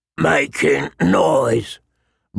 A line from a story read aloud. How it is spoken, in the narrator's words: Mord growled, with blood in his eyes